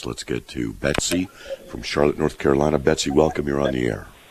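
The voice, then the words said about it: Hoarse voice from a chest cold. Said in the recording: “I have a chest cold, which is why my voice is like this.”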